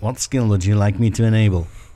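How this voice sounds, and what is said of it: Poor impression of Alexa. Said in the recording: “That was my very poor impression of Alexa.”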